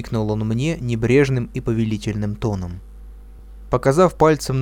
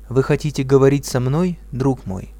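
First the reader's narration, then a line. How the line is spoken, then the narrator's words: Calm question. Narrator (Russian): спокойно спросил я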